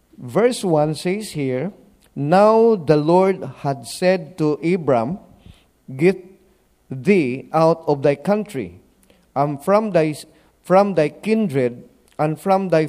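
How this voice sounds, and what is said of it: Accent that can be hard to follow. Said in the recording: “My accent sometimes is a bit difficult. Please bear with me.”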